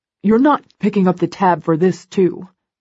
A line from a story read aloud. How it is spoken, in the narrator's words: Elliot grumbles